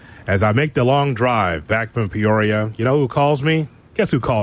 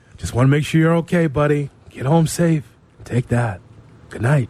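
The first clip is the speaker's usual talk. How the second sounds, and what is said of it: Soft, intimate bedroom voice. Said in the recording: “bedroom voice of ... Soft. Right in the ear.”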